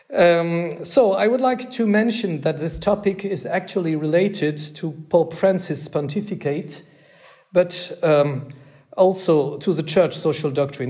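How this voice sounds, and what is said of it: French-accented English. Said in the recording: “my bad English? My French accent”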